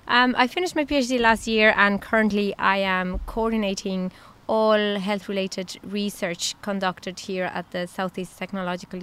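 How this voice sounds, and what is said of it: Latino accent mixed with Irish. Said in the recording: “my accent is that mixture between a Latino and, a, ... Irish”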